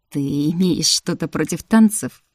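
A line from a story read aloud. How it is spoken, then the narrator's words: Mocking. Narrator (Russian): Насмешливо произнес принц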